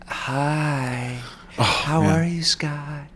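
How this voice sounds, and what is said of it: Sexy imitation of another person's voice. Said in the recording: “I know you can do a really good Lonnie Anderson. Let me hear your Lonnie Anderson. ... Yeah, that was really sexy.”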